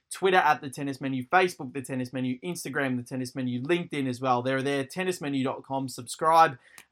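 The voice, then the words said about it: Out of breath, rushed speech. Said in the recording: “I'm out of breath.”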